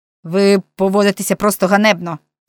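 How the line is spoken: Angry rebuke. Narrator (Ukrainian): сердито накинувся на неї Френк

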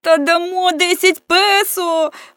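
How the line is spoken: Shouted in chorus. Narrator (Ukrainian): хором закричали всі

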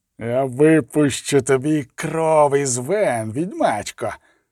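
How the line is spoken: Hissed. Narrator (Ukrainian): засичав

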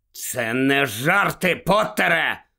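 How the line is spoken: Growl. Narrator (Ukrainian): загарчав Скрімджер

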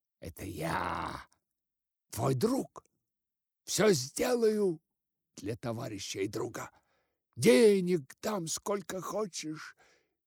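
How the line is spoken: Squeak into ear. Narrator (Russian): пискнул он ему в левое ухо

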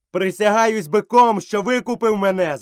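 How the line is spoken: Shouting. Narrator (Ukrainian): закричав Мауглі

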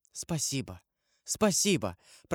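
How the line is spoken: Whisper. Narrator (Russian): прошептала она

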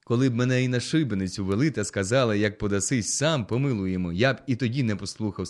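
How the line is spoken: Crying out. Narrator (Ukrainian): скрикнув Чіпка

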